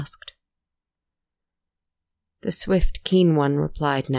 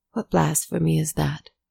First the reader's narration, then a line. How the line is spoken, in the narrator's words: Calmly, quietly, answered